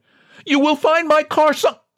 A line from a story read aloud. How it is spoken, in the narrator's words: John desperately tried to add